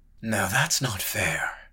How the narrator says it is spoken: muttered White Rose, feeling heat creep up his neck

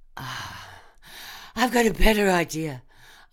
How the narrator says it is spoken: I gasped

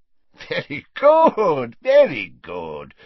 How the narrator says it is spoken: said Slughorn happily

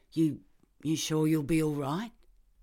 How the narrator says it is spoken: Kevin asked anxiously

